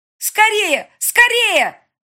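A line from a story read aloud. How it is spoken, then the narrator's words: Yelling. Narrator (Russian): орала Рита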